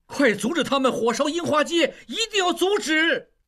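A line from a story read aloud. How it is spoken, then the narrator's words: Angry clamoring. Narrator (Chinese): 应季愤怒地嘴里还在嚷嚷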